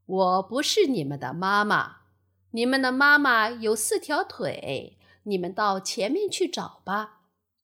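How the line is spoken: Laughing. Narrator (Chinese): 大鱼笑着说

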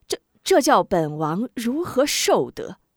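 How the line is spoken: Fawning giggle. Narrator (Chinese): 贾怀嘻嘻两声媚笑

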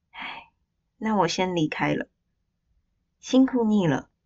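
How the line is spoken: Soft sigh. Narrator (Chinese): 看护最后轻轻叹息

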